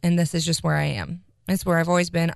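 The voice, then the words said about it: Low, flat, near-monotone voice. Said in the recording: “I'm naturally, I'm a very flat person and I talk down here... I'm almost a monotone... It's just dry.”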